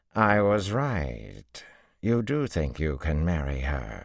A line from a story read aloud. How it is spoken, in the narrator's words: she drawled